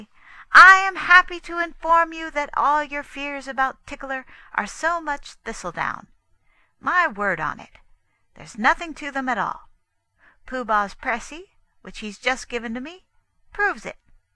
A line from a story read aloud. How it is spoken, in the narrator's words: said loudly